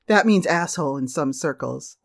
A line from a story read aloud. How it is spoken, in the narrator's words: the manager laughed